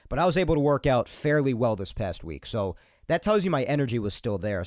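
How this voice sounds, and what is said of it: Congested, slightly nasal voice. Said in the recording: “despite my mucus and the coughing today ... my voice is coming off a bit more nasally than usual over the mic. I feel a little bit nasally”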